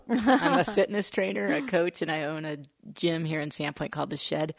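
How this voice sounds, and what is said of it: Hoarse voice. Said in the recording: “I have a hoarse throat from the smoke.”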